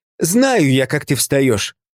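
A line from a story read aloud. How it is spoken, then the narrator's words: Confident snapping retort. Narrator (Russian): уверенно огрызнулась теща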